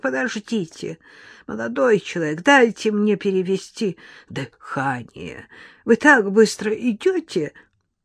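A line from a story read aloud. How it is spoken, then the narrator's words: Breathless creaky old voice. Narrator (Russian): старуха тяжело задышала и проскрипела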